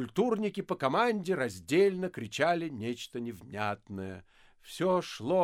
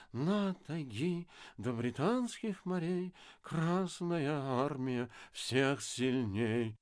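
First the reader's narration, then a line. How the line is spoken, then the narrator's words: Pensive nasal droning. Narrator (Russian): задумчиво гнусил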